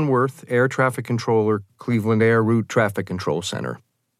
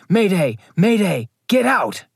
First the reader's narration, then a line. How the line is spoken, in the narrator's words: First Officer Leroy Homer transmitted a brief radio call where he can be heard shouting